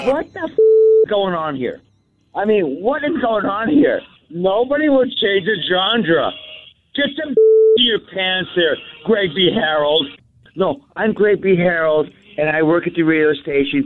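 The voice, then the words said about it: Uncanny impersonation of the radio host. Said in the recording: “that uncanny impersonation”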